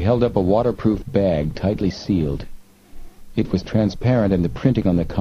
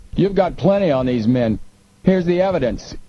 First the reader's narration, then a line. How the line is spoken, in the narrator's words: He called out